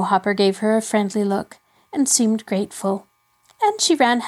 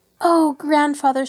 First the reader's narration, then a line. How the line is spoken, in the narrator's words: she called out before she had reached him